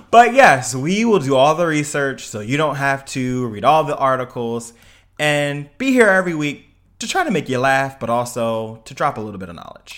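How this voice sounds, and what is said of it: Newscaster-style delivery. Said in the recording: “talking like a newscaster”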